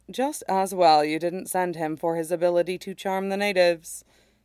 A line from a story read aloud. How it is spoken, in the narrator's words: he says dryly